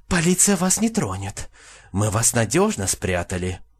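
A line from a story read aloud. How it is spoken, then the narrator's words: Fervent whisper in ear. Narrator (Russian): медсестра жарко зашептала в ухо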